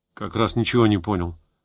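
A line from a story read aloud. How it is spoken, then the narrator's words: Disconcerted mutter. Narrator (Russian): обескураженно пробормотал Валюшок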